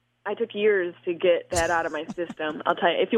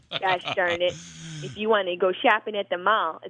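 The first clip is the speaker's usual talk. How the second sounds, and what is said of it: Nasal Syracuse accent. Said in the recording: “if you want me to sound like Syracuse, I will turn it on right now ... it's a very nasal accent”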